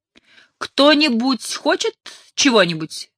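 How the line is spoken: Shouted from kitchen. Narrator (Russian): крикнула из кухни хозяйка этой недели Молли

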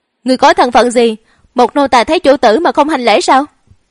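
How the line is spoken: Loud angry scolding. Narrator (Vietnamese): Chanh y nữ tử ... vô cùng tức giận, ... lớn tiếng trách mắng

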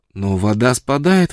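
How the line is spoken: Exclamation. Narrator (Russian): воскликнула Фрона

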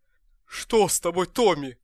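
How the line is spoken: Shout. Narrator (Russian): крикнул он

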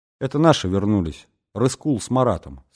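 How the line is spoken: Plain. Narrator (Russian): сказала она

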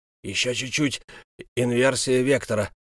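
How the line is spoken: Muttering. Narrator (Russian): бормотал имперский маг

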